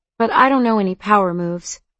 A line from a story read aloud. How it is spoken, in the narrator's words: I said